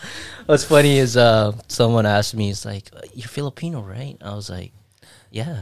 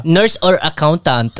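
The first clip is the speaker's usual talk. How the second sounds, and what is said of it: Put-on Filipino accent. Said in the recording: “you just went total Filipino accent right now.”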